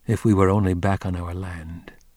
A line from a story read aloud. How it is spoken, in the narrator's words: he muttered